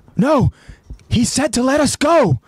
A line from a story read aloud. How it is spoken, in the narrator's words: Marlo pleads